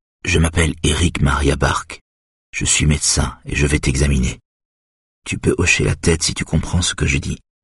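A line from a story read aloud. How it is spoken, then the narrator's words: Quiet repeating. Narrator (French): répète-t-il à voix basse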